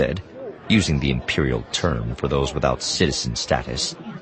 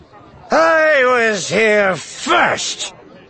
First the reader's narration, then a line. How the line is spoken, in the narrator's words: Theron said, slurring his words